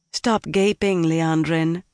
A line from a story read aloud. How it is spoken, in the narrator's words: the woman said calmly